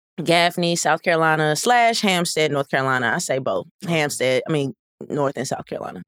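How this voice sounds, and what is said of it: Regional American accent. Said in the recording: “So you have an accent.”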